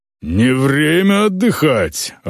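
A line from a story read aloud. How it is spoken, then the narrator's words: Growled. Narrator (Russian): рыкнул Эйнар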